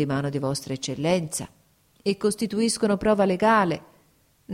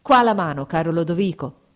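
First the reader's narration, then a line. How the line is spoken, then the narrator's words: Exclaimed. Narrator (Italian): esclamò Fabrizio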